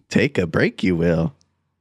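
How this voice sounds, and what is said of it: Yoda-style character voice. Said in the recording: “That was Yoda.”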